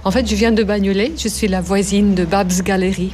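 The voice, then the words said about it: Slight accent speaking French. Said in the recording (French): “comme j'ai un accent ... ce petit accent”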